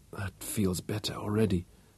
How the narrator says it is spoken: she whispered

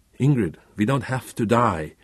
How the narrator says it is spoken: Karen pleaded

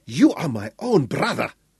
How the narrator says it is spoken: Piri gasped with a shock

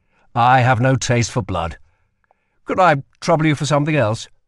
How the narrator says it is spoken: said Kell hastily

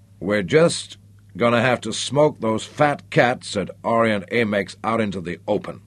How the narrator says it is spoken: Tom Parker growled angrily

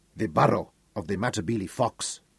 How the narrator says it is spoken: Peter gloated quietly

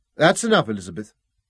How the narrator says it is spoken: Robin spoke sharply

